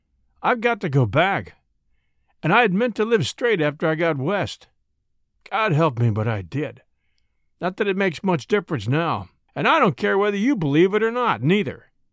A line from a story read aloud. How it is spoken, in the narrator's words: added fiercely